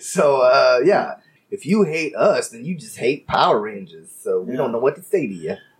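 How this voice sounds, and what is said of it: Imitates a Mexican woman's voice. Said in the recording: “your impression of a Mexican lady”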